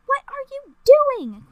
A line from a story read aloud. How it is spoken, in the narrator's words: Queen Samantha cried